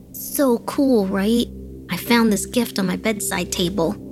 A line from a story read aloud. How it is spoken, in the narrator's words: he exclaimed